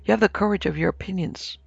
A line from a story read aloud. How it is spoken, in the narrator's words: replied Vance quietly